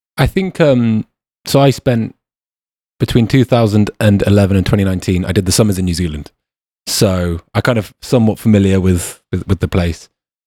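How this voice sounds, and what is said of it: British English accent. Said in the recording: “people did pick up on my accent. They knew I wasn't a Kiwi ... us Brits”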